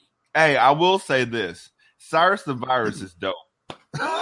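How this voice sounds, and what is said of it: Usual voice. Nothing is said of it.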